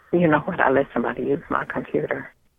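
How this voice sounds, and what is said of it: Mumbling, hard to hear. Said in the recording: “stop mumbling?... it's hard to hear you.”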